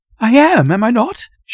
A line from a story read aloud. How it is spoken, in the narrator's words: she said eagerly